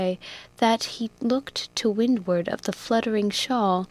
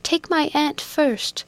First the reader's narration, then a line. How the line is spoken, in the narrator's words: cried Rose, resisting Mulford's efforts to lift her into the boat